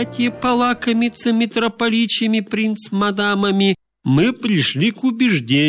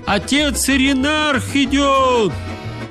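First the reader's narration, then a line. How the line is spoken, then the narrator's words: Shouted warning. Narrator (Russian): какой из наших махальных этот крикнул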